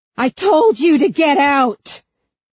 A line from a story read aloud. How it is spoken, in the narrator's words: gasped awake